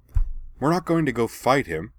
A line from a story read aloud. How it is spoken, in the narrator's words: Anne snapped, frustrated